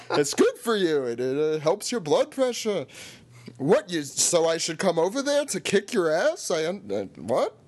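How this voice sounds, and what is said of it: Exaggerated Jewish accent voice. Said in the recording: “do the Jewish voice”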